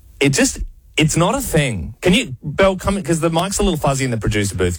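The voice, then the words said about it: Strong Adelaide accent, L's like W's. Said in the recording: “you guys have the strongest accent... you pronounce your L's as W's. And you both do it?”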